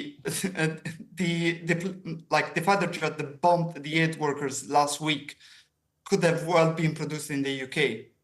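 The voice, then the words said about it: Strong Italian accent. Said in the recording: “your rather strong accent ... I was born and grew up in Italy.”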